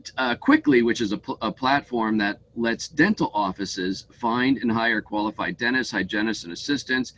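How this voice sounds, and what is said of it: Voice of someone with a cold. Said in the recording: “I have a cold today”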